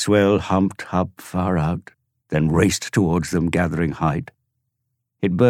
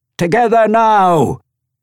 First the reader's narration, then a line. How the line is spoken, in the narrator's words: Jim yelled